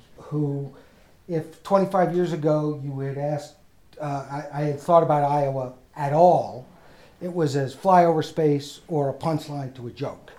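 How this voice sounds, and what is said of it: New York accent. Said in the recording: “my accent ... I am a New York Jewish guy”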